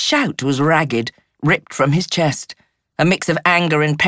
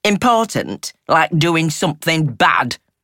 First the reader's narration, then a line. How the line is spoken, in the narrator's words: he rasped, his tone harsh and mocking